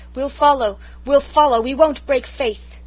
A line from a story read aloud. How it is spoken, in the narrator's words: The soldiers cheered her like mad, and cried